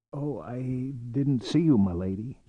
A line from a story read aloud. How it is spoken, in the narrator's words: said hoarsely